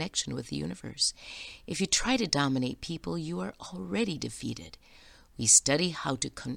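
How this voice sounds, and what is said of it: Usual voice. Nothing is said of it.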